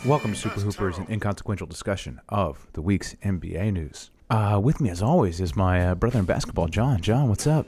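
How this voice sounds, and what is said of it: Calm public-radio host voice. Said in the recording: “Wow, you're using your NPR voice.”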